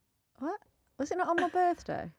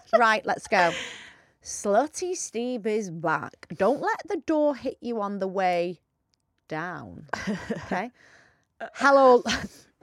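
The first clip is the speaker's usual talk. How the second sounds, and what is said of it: Put-on blokey male voice. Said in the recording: “you read this in your blokey voice ... I need my blokey voice ... You sound like more of a bloke than me.”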